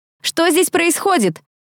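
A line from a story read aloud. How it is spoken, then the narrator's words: Loud shout. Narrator (Russian): Громко, чтобы девчонки слышали, прокричала я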